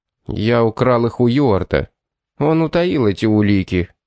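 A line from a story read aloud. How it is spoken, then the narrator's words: Plain. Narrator (Russian): ответил Леннокс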